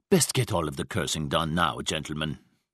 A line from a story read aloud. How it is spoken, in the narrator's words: Brandt said coldly